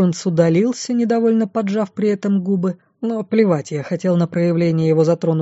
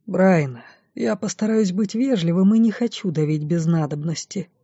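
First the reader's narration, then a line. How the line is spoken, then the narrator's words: Quiet. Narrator (Russian): тихо начал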